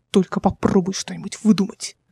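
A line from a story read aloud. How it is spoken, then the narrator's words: Hissing. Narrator (Russian): прошипел Димон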